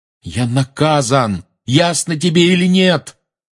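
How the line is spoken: Yelled after someone. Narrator (Russian): заорал Гарри ей в спину

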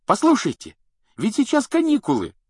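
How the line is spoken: Exclamation. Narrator (Russian): воскликнул Рон

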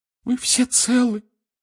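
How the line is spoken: Sobbing. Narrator (Russian): всхлипнула миссис Уизли

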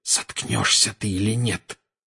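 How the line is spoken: Hiss. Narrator (Russian): прошипел Гарри

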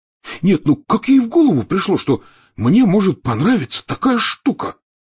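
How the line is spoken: Stunned exclamation. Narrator (Russian): потрясенно глядя в пространство, воскликнул Рон

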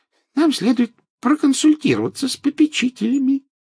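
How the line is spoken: Squeaky voice. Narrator (Russian): пропищал профессор Флитвик

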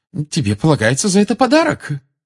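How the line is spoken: Loving exclamation. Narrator (Russian): с любовью воскликнула миссис Уизли

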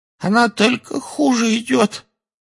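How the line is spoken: Hoarse. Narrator (Russian): хрипло сказала Кэти

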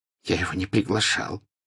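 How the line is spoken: Whisper. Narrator (Russian): прошептал Драко

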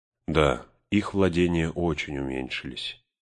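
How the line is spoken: Wistful sigh. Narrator (Russian): Арагорн, словно вспомнив о чем-то, вздохнул

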